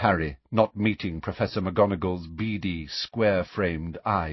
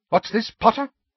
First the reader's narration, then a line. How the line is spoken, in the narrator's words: said Professor McGonagall sharply